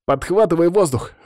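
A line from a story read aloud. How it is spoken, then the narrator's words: Exclaimed. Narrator (Russian): воскликнул Городецкий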